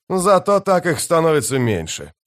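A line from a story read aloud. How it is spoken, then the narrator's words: Snorting. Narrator (Russian): хмыкнул Сон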